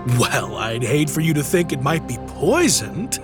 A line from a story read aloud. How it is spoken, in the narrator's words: laughed Christian